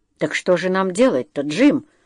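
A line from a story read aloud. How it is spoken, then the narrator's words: Muttered. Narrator (Russian): буркнул Джо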